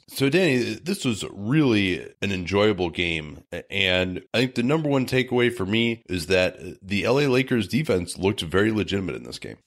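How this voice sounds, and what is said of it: Strained, failing voice. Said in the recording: “my voice is starting to abandon me here”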